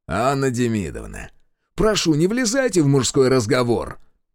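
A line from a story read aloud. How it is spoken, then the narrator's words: Sharp rebuke. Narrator (Russian): Прикрикнул на учительницу майор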